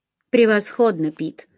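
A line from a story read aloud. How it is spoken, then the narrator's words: Plain. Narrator (Russian): сказал Эллири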